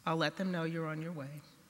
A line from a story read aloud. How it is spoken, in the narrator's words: Calmly, said